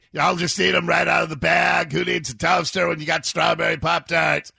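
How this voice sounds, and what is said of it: Growling imitation of another person's voice. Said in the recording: “my Scott Farrell impression ... You're just growling everything”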